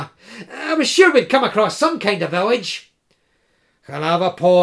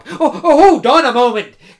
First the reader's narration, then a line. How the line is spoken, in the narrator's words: cried Koma